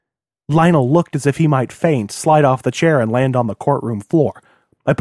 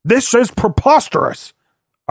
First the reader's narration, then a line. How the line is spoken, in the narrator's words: Arculian yelled